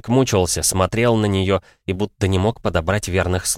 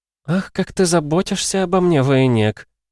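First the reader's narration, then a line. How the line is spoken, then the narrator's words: Purring. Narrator (Russian): мурлыкнула Нежата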